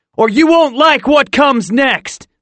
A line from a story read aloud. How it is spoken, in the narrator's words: shouted